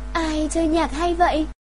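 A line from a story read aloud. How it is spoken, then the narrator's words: Surprised exclamation. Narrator (Vietnamese): Cô gái ngạc nhiên kêu lên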